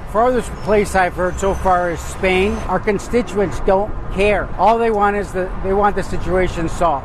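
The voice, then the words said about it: Chicago accent. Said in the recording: “perfect Chicago accent”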